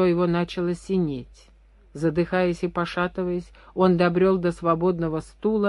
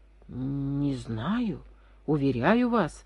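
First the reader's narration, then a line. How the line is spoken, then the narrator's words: Barely audible mumbling. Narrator (Russian): бормотал едва внятно Вишняков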